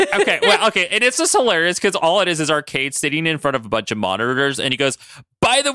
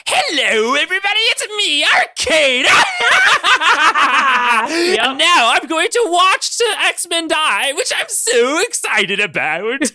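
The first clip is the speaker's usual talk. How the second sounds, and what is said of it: Over-the-top character voice. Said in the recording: “I feel like I need to do his voice... I'm going to back up from the microphone to spare everybody... really, really over the top voice acting”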